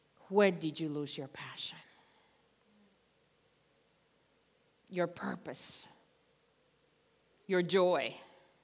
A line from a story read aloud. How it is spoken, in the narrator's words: Jesus ... gently asking us